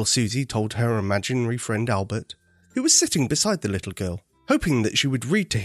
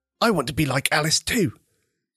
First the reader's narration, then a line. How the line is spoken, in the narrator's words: Albert exclaimed to his friend